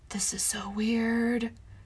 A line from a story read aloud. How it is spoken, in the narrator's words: she whispered